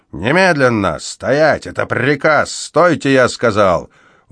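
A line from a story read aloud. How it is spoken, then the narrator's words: Barking, growling shout. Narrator (Russian): Он напоминал лающего и рычащего терьера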